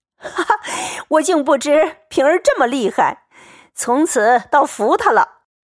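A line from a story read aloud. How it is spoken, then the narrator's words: Laughing heartily. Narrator (Chinese): 贾琏已绝倒在炕上，拍手笑道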